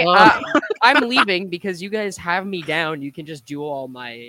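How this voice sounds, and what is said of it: Usual voice. Nothing is said of it.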